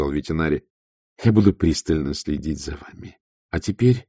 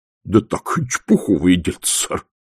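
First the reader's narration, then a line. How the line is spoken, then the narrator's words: Forced, reluctant words. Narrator (Russian): выдавил он из себя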